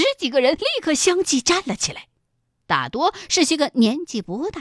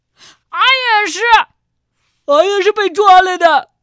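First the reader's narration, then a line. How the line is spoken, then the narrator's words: Loud indignant accusation. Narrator (Chinese): 杨百万激愤的大声的控诉着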